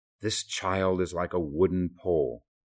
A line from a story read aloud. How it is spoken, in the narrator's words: My grandfather would always exclaim